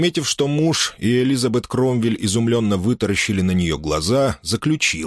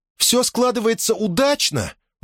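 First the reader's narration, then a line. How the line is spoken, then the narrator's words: Exclaiming. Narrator (Russian): воскликнула она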